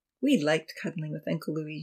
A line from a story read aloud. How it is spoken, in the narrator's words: she recalled wistfully